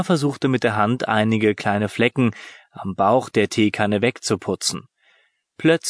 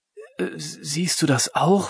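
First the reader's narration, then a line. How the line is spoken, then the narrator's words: Whisper. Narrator (German): flüsterte Lena Tim zu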